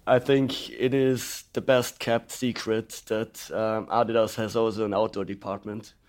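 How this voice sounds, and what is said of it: Voice darkened by a cold. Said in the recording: “a man with a fairly substantial cold ... my voice is a little bit is a little bit dark”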